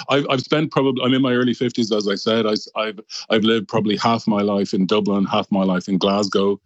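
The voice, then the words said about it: Dublin Irish accent. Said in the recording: “you talk very much a Dublin accent ... my accent is very much from Dublin”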